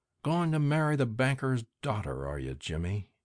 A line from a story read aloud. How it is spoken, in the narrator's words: said Ben to himself softly